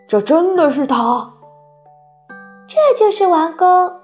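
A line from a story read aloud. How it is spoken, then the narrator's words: Giant's quiet call. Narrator (Chinese): 好心眼巨人悄悄地叫了一声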